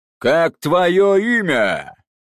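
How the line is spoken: Loud question, heavy man. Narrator (Russian): громко спросил грузный распорядитель

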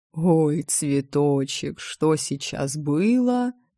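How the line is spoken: Dreamy drawl. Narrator (Russian): мечтательно протянул Хилар

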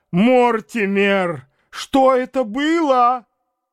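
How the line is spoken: Shouting again. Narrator (Russian): снова закричала

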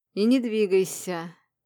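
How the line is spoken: Hoarse approval. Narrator (Russian): хрипло одобрил он

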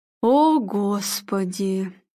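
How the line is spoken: Moaning. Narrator (Russian): простонал Арнольд

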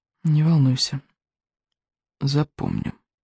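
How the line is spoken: Whispered reply. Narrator (Russian): шепотом отозвался Икинг

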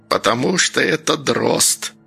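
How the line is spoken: Old woman hissing. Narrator (Russian): прошипела бабка

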